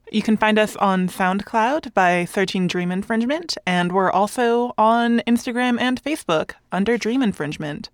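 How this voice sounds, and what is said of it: Smooth radio-style voice. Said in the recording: “You got a great radio voice”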